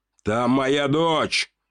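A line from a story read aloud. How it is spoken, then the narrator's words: Shouted. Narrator (Russian): выкрикнул граф Королев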